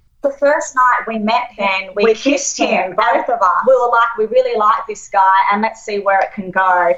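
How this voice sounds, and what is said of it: Australian accent. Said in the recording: “Australian. Just trust me. It's the two Australian. ... I know you hate the Australian accent”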